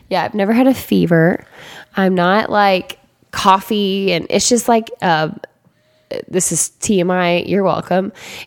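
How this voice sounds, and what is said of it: Hoarse, congested voice from a cold. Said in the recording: “You have a cold. ... my voice went away”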